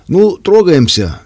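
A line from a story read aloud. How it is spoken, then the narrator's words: Cheerful good-natured man. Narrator (Russian): весело сказал мужчина с добродушным огоньком в глазах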